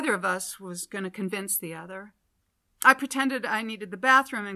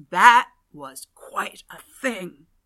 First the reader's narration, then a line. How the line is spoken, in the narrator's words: rasped